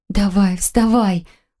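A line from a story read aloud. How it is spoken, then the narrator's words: Pleading dizzy mutter. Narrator (Russian): Умоляющим тоном пробормотала, чувствуя, как кружится голова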